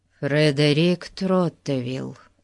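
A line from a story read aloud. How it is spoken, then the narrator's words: Glum, dejected. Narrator (Russian): уныло представился Фати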